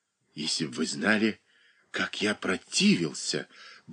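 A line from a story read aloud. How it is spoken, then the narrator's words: Muttering. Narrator (Russian): бормотал он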